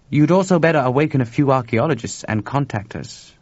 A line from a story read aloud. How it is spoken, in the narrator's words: Yen added dryly